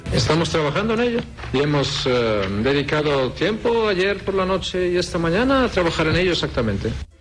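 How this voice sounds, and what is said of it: Spanish spoken with Tex-Mex accent. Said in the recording (Catalan): “Tex-Mex ... És molt difícil fer aquest accent, eh? ... a part de l'accent hi ha la formació de les frases”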